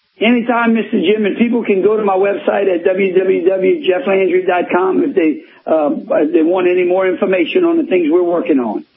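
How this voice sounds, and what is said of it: Louisiana regional accent. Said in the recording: “got an accent there, doesn't he? If you live in my part of the country, a lot of folks have an accent down here”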